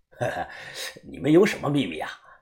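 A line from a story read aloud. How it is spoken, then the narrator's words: Smiling. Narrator (Chinese): 他笑着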